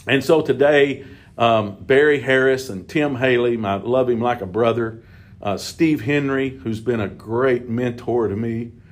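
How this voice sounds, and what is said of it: Tearful, choked-up voice. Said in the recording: “Sorry for my voice ... I'm not supposed to cry.”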